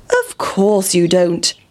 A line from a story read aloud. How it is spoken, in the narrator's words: said the pig